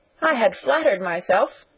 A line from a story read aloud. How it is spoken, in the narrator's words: cried young Wharton with a laugh